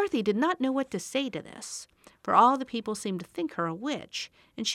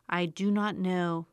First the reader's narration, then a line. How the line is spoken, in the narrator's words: answered Bach gravely